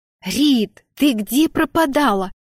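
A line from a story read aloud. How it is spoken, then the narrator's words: Shrieking. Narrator (Russian): завопила она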